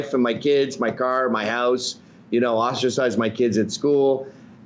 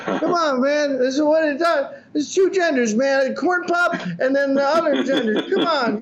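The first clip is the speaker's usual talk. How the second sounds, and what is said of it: Joe Biden impression. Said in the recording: “as senile as Joe Biden ... That's not a bad impression.”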